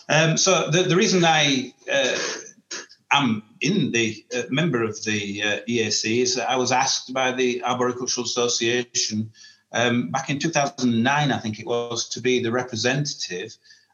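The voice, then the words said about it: Northern English Yorkshire accent. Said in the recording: “the Northern twang ... the Yorkshire accent”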